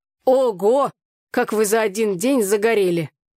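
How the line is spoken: Exclaiming. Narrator (Russian): воскликнул он

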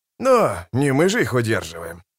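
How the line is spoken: Grumbling. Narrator (Russian): проворчал Остряк

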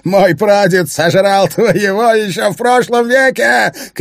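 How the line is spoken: Shouting. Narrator (Russian): кричал Финн

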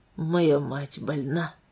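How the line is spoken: Quiet. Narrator (Russian): произнес Уэстон тихо

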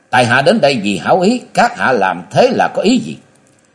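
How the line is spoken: Roar. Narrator (Vietnamese): Thạch Mộng gầm lên

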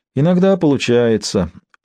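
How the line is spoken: Glum. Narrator (Russian): уныло ответил Джефферс

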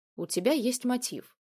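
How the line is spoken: Calm reply. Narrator (Russian): спокойно ответил сыщик

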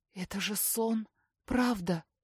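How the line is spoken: Hoarse voice. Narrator (Russian): хрипит она

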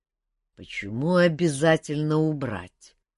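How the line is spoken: Dull hooting laugh. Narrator (Russian): глухо ухнул повелитель, что должно было означать смех

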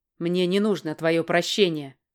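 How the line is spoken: Man snapping. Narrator (Russian): огрызнулся мужчина

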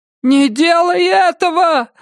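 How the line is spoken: Screaming. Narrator (Russian): завопила миссис Самара Судительность

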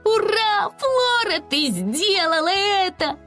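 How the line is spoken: Joyful shout. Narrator (Russian): радостно прокричала Чатта

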